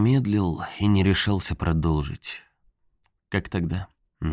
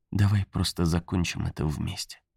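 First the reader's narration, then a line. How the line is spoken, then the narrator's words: Said tenderly. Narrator (Russian): ласково сказала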